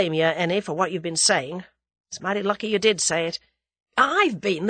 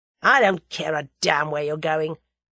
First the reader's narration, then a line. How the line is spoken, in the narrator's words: growled Tommy